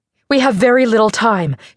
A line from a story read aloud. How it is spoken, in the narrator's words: she said in a clipped, tense voice